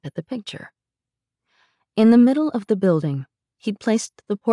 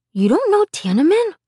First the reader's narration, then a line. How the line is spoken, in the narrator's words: He said to me, his voice full of surprise